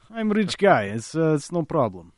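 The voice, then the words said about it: Weak put-on Russian accent. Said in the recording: “Could probably work on my Russian accent.”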